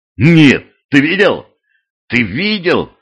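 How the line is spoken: Loud question. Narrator (Russian): громко спросил Курт де Лекс

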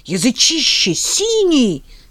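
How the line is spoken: Shrill squeal. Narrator (Russian): взвизгнула Роза Константиновна

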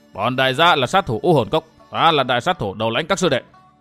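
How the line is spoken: Barking, fierce. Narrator (Vietnamese): Tên hán tử lùn thấp, béo tròn nói như quát

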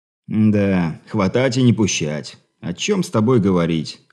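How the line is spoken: Sigh. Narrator (Russian): вздохнул прибалтийский гость

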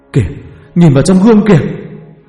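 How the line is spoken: Panicked scream. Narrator (Vietnamese): tiếng hét thất thanh

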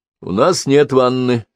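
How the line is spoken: Plain. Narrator (Russian): сказал доктор

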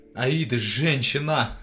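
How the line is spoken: Yelling. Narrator (Russian): заорал я

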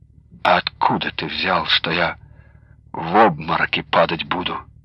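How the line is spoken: Quiet disapproving question. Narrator (Russian): Тихо, но неодобрительно спросила

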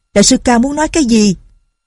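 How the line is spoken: Loud. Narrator (Vietnamese): Nhạc Linh Sang lớn tiếng nói

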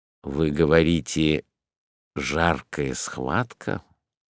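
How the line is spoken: Low voice, doctor. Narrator (Russian): сказал вполголоса доктор

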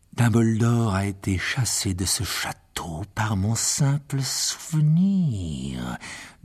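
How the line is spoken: Hissing voice. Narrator (French): dit-il d'une voix sifflante

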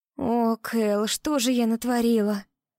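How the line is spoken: Moaning. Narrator (Russian): Простонала Дилан

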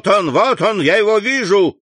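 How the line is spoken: Shout from behind door. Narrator (Russian): крикнул голос за дверью

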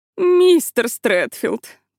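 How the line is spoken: Moan. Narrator (Russian): простонала она

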